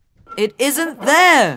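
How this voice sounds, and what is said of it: Shouting. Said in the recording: “Stop shouting”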